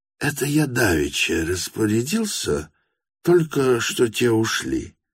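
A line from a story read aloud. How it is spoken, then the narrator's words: Muttering. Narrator (Russian): пробормотал Степан Трофимович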